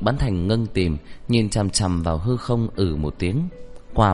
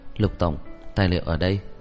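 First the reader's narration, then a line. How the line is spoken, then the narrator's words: Quietly. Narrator (Vietnamese): nhỏ giọng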